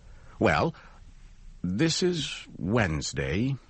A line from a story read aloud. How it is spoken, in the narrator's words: he said slowly